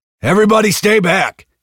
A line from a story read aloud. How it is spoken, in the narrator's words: Hicks yelled when he could finally speak